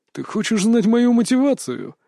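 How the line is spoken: Mocking laughter. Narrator (Russian): рассмеялся он, и его смех был издевательским, будто бывший сослуживец наслаждался моей неспособностью что-либо изменить

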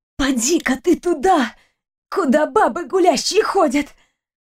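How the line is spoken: Hoarse wheeze. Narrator (Russian): Просипела я

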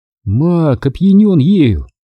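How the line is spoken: Sighing. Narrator (Russian): вздохнула Марис

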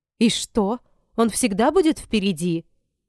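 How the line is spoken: Indignant question. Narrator (Russian): возмущенно спросила Эпона

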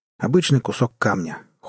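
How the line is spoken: Cold, flat statement. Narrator (Russian): холодно констатировал Джек

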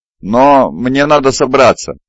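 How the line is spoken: Bewildered speech. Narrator (Russian): растерянно произнес Хасан

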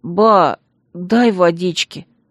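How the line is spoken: Weak boy's plea. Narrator (Russian): попросил пацан неожиданно ослабшим голосом

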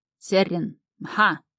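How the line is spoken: Command. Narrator (Russian): скомандовал один

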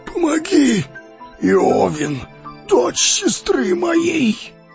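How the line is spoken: Hoarse rasp. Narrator (Russian): прохрипел он

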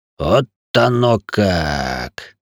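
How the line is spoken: Meaningful drawl. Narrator (Russian): Многозначительно протянулся Заус

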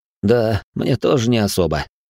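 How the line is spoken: Wry snort. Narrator (Russian): хмыкнул я

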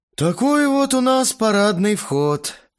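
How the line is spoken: Grumbling. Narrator (Russian): пробурчал один из толкинистов

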